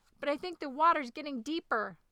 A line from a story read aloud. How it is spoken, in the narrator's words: shrieked the dragon